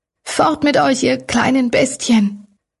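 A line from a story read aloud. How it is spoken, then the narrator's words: Hoarse, weak call. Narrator (German): rief Dorothy mit heiserer, kraftlos klingender Stimme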